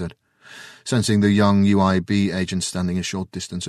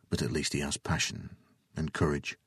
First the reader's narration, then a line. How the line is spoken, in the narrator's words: Jason mumbled